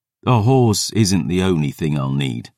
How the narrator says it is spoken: I sighed

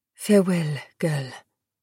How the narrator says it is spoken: murmured

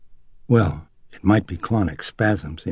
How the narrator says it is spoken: he murmured

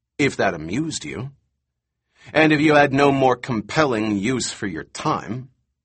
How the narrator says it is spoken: Malcolm said coldly

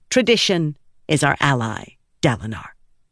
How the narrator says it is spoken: ELA said

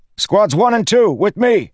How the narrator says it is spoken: he shouted

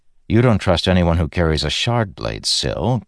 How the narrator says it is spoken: Kaladin said with a sigh

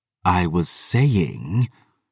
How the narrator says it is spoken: she hissed

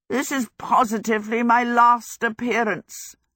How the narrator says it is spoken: Howl croaked

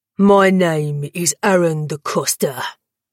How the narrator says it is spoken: he'd roared to Danton

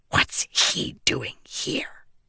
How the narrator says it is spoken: Shallan hissed

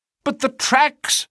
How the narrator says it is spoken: I cried

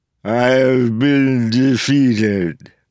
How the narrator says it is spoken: Vendel said, words slurred by the broken jaw

